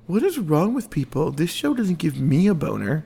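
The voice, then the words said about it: Imitates another person's voice. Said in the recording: “That was my impression of you.”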